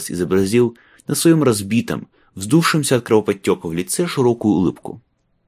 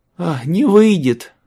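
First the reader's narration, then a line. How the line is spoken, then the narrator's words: Sighing. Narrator (Russian): вздохнула Боун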